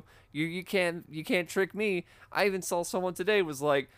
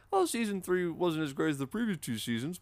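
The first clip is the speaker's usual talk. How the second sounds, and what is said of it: Mocking dumb-sounding voice. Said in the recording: “doing a dumb voice. ... It was just me putting a tweet voice.”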